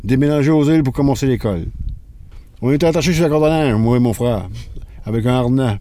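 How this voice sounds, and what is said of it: Magdalen Islands accent, projecting voice. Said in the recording (French): “Il a un accent des îles et une voix qui projette. Une voix pour percer les vagues et le vent.”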